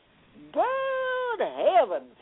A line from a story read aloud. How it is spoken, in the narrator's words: cried